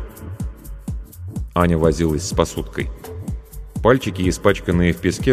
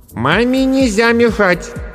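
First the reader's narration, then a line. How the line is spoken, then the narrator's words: Loud. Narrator (Russian): громко сказала Аня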